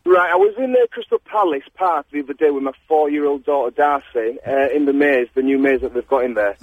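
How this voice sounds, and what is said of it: Yorkshire (Leeds) English accent. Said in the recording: “originally from Yorkshire, you can tell by my accent. ... Leeds”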